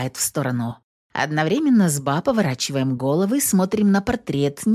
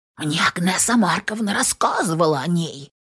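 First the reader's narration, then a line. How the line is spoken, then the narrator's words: Whispered agreement. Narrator (Russian): поддакивает шепотом Ба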